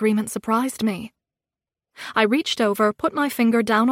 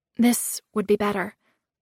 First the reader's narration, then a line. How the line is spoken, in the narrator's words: I said quietly